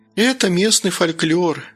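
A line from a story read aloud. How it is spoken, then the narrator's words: Calm, smiling. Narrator (Russian): спокойно улыбнулась Белла Геннадьевна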